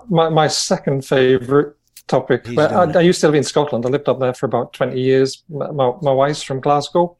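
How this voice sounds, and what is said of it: British accent. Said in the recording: “with a British accent”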